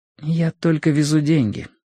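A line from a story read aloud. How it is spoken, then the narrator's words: Quiet reply. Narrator (Russian): тихо ответила она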